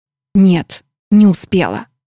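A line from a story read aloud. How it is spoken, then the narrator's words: Whispered. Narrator (Russian): ответила я шепотом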